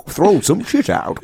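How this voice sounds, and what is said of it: Old wizard voice like Gandalf. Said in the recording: “Why did you do a voice like Gandalf there? ... In the remix, am I much, much older”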